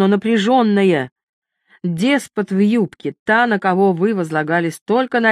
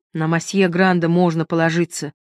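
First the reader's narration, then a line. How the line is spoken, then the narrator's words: Gloomy objection. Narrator (Russian): мрачно возразил Артур Ли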